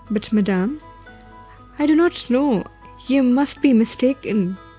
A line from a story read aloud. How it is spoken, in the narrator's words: She stammered